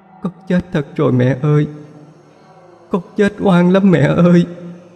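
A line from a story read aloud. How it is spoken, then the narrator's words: Sobbing harder. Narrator (Vietnamese): giọng nức nở hơn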